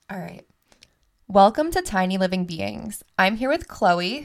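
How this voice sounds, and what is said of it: Polished podcast-host voice. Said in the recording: “put on my podcast voice”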